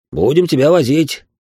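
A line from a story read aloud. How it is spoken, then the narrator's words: Snorted. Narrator (Russian): хмыкнул Сергей Ильич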